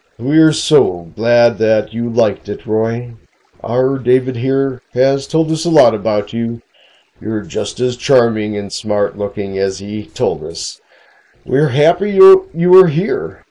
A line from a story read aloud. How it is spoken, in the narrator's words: said in a deep baritone voice